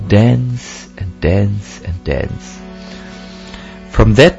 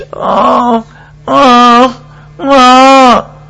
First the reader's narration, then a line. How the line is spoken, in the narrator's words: cried